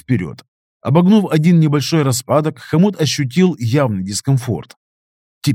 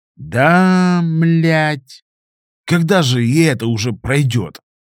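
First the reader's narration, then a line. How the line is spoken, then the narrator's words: Hopeful grumble. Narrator (Russian): пробурчал Хомут с надеждой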